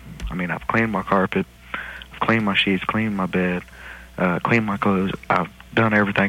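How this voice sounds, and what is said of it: Southern American drawl. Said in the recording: “a guy with a southern drawl”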